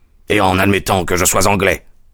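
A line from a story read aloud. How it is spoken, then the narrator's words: Ominous growl. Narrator (French): répondit avec un grognement de mauvais augure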